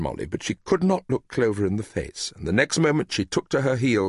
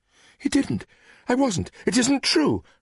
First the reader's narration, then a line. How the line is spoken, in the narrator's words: cried Molly